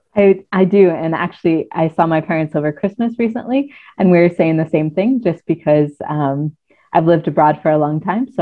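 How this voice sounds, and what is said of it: Hard-to-place, neither American nor Canadian accent. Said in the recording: “your accent or lack thereof, because you don't sound quite like you're from the British Isles ... you don't actually sound American either, nor do you sound Canadian”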